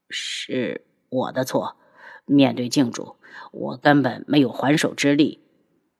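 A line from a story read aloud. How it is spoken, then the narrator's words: Subdued, low. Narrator (Chinese): 一改往常嚣张的态度，低声道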